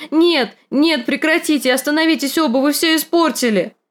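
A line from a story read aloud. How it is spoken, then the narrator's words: Shouting. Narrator (Russian): Санса кричала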